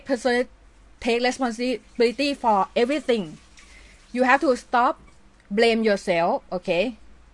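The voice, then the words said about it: Weird non-native English accent. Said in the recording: “my English is weird my accent is very weird”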